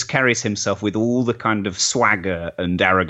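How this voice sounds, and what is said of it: Usual voice. Nothing is said of it.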